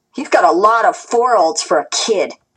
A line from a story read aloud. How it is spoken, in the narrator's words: she sneered